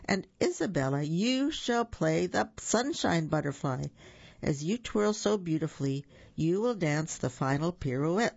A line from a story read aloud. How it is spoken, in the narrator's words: said Madame Colette